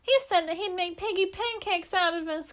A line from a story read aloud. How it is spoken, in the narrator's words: cried the second little pig